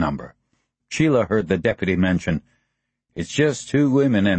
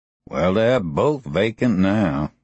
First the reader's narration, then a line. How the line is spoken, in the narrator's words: the deputy grumbled